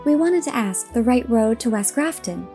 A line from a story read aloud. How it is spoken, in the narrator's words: said Diana